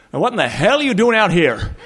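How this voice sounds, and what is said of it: Thick Wyoming accent. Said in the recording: “this thick Wyoming accent goes”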